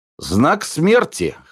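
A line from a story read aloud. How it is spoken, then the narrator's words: Sad snort. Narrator (Russian): хмыкнул Половцев с грустной улыбкой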